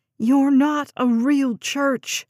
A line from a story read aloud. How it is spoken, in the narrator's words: she shouted